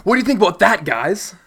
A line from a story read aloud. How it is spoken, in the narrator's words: Excitedly exclaimed Roan